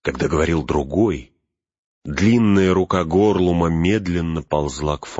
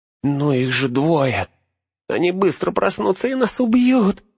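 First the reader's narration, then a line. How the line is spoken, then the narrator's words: Whining, giving in. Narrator (Russian): заскулил Смегрл, сдаваясь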